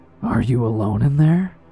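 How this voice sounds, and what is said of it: Raspy, dry, mocking voice. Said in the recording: “almost in a mocking voice. His voice was raspy and dry.”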